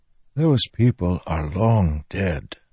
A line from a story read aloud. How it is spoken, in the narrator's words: Taravangian whispered